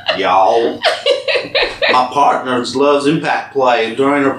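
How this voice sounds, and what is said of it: Put-on southern accent. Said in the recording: “I'm gonna do this in the southern accent. I can't do the English accent. ... No, you can't do southern. You can't do it.”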